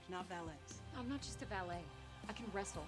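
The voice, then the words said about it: Southern Georgia accent, convincingly done. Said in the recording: “they're pulling off a Georgia Southern accent pretty goddamn good”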